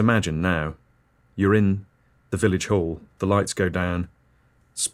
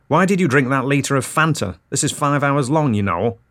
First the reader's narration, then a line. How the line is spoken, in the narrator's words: says, quite loudly